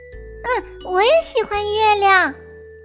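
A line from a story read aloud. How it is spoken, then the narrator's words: Little owl calling out. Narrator (Chinese): 小猫头鹰喊道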